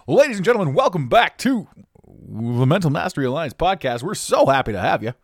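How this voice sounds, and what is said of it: Exaggerated radio announcer voice. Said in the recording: “my radio voice ... the more it just sounds absolutely atrocious ... keep up the pace”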